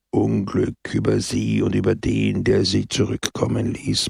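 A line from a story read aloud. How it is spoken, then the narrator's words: Murmur. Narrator (German): murmelte Pepone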